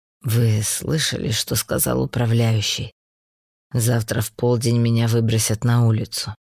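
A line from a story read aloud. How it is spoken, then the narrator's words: Gloomy. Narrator (Russian): мрачно сказал Марк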